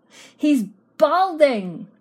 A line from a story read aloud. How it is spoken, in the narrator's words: yelled one woman